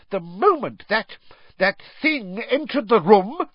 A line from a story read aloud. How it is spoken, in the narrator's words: she screamed, trembling all over